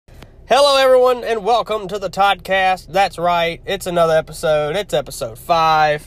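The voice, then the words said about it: Nasal, congested voice. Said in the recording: “I sound a little different nasally. I've been dealing with a sinus infection for this past week”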